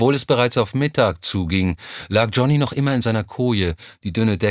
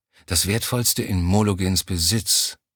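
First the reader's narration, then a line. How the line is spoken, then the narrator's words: Muttering to himself. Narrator (German): murmelte vor sich hin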